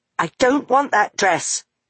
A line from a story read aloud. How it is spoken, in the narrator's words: Meggie spat at the magpie